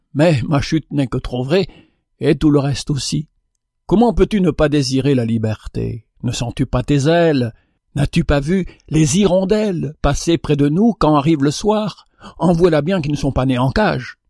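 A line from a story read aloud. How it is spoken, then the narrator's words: Sighing goldfinch. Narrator (French): soupira le chardonneret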